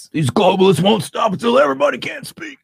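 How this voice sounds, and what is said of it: Alex Jones impression. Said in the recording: “doing his Alex Jones things ... his Alex Jones impersonation”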